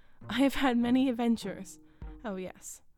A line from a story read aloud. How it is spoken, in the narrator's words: He added, laughing